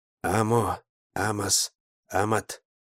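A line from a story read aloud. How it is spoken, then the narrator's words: Muttering. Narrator (Russian): бормотал я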